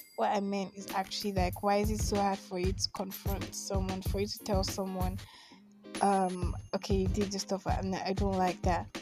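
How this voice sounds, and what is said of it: Congested, blocked-nose voice. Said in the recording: “I'm sorry if I sound weird. Like, I have cough, I have catarrh”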